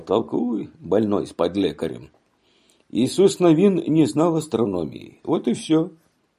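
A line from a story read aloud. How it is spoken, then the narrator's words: Laughing then speaking. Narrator (Russian): Отец засмеялся и сказал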